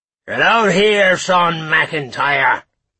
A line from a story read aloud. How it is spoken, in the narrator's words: roared the man, reeling in his drunkenness